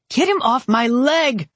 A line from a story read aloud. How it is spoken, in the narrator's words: Andrea howled